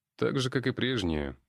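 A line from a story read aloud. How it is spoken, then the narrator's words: Smirking grunt. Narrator (Russian): хмыкнул я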